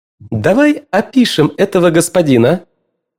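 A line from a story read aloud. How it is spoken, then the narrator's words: Cheerful exclamation. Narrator (Russian): весело восклицает она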